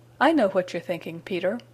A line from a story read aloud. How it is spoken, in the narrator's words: chuckled